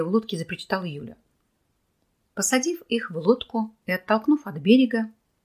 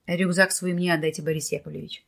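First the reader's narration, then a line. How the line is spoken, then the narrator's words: Firm, no-objection voice. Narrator (Russian): твердым голосом, не требующим возражений, сказал Николай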